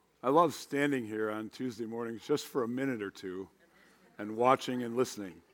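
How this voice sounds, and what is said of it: Hoarse, strained voice. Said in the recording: “my voice is a little bit shot, not quite sure if it's a cough or a cold”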